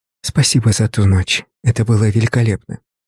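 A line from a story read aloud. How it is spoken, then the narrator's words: Whisper in ear. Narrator (Russian): шепнула на ухо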